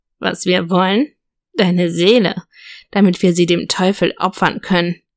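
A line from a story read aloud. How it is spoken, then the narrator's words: Grave, deep voice. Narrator (German): sagte der Sprecher mit graber Stimme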